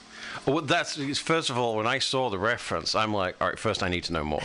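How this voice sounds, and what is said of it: Real British accent. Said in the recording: “Really am British. The accent's real.”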